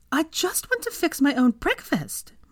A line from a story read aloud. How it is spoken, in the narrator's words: Minerva cried at her mother and stomping her foot in frustration